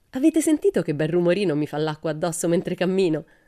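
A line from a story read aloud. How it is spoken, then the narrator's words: Laughing. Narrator (Italian): disse Pippi ridendo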